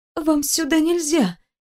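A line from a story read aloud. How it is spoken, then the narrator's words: Quiet hoarse squeak. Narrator (Russian): тихонько пропищала Даша и почувствовала, как хрипнет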